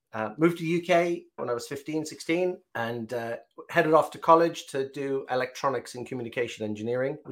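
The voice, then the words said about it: Southern Irish accent, County Cork. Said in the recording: “You can hear a Southern Irish accent, County Cork.”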